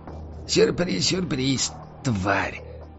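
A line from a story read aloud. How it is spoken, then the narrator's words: Hoarse rasp. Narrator (Russian): прохрипел историк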